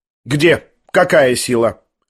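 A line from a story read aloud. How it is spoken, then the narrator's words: Sharp question. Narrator (Russian): резко спросила Лизавета Прокофьевна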